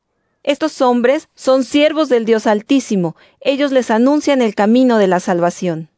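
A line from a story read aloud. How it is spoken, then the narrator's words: Girl shouting. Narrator (Spanish): La muchacha comenzó a seguir a Pablo y a nosotros gritando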